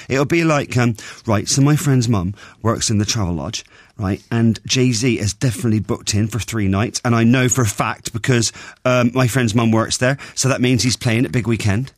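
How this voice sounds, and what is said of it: Put-on Bristol accent. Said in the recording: “Why are you doing the Bristol accent?”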